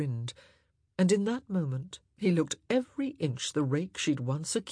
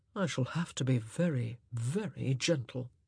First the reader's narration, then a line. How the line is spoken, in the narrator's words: he murmured